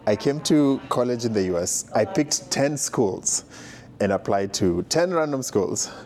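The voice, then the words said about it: Kenyan accent. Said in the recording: “I'm from Kenya. That's where the accent comes from.”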